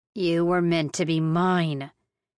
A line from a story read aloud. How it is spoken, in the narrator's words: he snarled my way